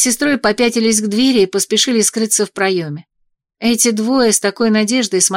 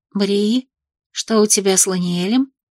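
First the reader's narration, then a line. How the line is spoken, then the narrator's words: Whisper in ear. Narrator (Russian): шепнула сестре на ухо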